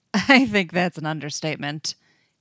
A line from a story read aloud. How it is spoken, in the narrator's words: he laughs